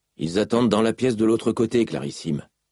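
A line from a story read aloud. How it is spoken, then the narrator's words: Nervous jailer. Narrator (French): répondit le geôlier d'un ton nerveux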